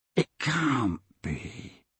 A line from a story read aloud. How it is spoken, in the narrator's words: he muttered